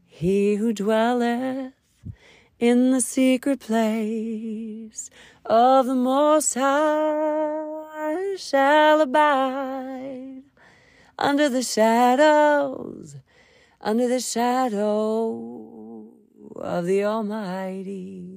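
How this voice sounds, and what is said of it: Raspy, unpolished singing voice. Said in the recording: “my voice is so unpolished, unprofessional, and raspy.”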